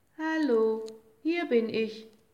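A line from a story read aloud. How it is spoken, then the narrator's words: Called out. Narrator (German): rief er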